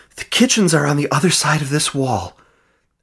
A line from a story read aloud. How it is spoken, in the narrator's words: Aaron panted